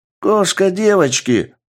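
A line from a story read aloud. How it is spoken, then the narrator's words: Shouting pyromaniac. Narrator (Russian): крикнул пироманьяк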